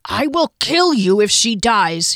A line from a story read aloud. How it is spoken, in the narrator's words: he growled